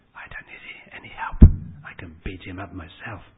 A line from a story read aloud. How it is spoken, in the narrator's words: one big fellow, Tom, whispered out loud